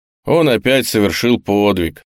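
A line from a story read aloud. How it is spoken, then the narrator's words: Sad. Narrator (Russian): печально сказал Жуков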